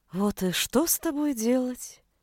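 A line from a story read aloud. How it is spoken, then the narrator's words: Quiet resigned sigh. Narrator (Russian): Тихо и как-то обреченно вздохнул маг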